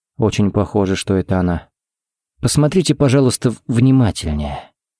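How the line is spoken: Gentle request. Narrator (Russian): попросил Харри мягко

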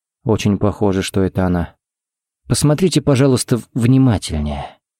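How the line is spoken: Soft request. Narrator (Russian): попросил Харри мягко

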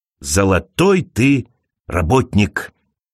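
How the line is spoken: Whispered. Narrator (Russian): шептал мистер Дуган

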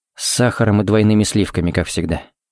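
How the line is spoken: Quiet. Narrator (Russian): сказал тихо

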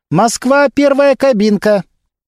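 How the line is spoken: Young woman calling out. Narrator (Russian): девушка-оператор выкрикнула

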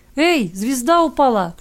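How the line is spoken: Child's shout. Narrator (Russian): крикнул кто-то из ребятишек

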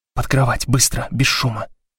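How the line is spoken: Whispered. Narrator (Russian): прошептала Блок

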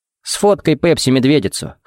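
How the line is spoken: Amused snort. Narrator (Russian): хмыкнул Джаред

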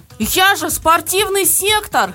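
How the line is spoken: Yell. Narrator (Russian): завопил он

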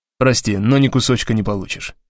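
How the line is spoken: Plain. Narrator (Russian): сказал я

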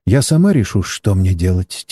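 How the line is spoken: Quiet. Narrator (Russian): тихо произнесла китаянка

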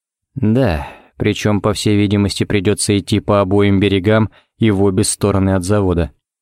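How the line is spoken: Gloomy. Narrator (Russian): кивнул Ричмонд еще более мрачно

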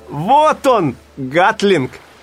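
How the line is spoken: Shouted. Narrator (Russian): крикнул Симпкинс

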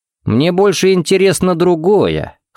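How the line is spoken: Scoffed. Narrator (Russian): хмыкнул Джаред

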